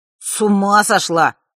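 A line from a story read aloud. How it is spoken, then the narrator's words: Snort. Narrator (Russian): фыркнул Маар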